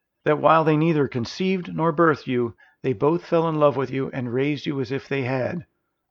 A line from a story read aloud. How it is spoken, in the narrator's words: Orvin answered